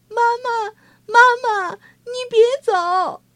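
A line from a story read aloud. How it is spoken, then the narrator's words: Children crying out. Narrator (Chinese): 孩子们哭叫着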